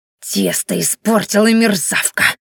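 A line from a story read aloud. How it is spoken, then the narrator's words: Angry hiss. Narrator (Russian): шипела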